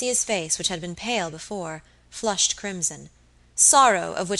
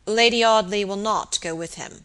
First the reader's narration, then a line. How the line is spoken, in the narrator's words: said Robert gravely